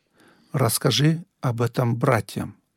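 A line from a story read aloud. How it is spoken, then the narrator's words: Plain. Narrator (Russian): сказал он мне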